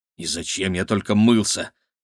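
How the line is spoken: Grumbling mutter. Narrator (Russian): буркнул Игорь

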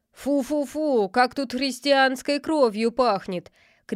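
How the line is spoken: Shouted. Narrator (Russian): крикнул он

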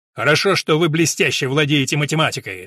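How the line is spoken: Barked. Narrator (Russian): рявкнул Абик

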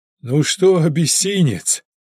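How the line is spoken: Joyful bark. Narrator (Russian): радостно гаркнул Сашка Маренченко

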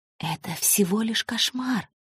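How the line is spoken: Muttering. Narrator (Russian): бормотал

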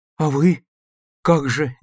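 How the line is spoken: Uncertain child's question. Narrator (Russian): неуверенно спрашивает мальчик

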